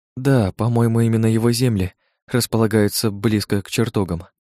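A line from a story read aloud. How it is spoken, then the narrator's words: Plain. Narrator (Russian): ответила Лана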